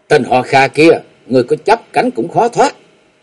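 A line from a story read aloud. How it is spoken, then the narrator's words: Woman's shout. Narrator (Vietnamese): Nàng khéo quát lên một tiếng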